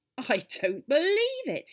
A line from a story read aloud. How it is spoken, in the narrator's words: cried